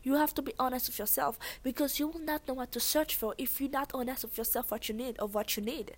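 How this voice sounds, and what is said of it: Very thick Haitian accent. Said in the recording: “I have a very thick accent. That's because I'm Haitian.”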